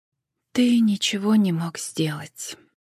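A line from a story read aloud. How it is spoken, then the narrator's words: Quiet, sorrowful. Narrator (Russian): тихо проронила она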